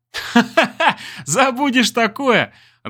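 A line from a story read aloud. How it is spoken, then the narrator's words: Laughing. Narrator (Russian): рассмеялся Олег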